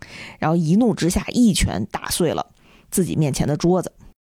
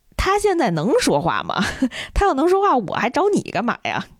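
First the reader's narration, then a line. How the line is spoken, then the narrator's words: Angry inner laugh. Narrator (Chinese): 刘丽气得都笑了，就心说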